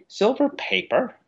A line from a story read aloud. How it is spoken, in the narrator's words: exclaimed the Admiral